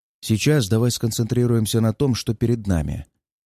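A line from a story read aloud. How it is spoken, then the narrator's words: Soothing request. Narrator (Russian): попросил я друга успокаивающим тоном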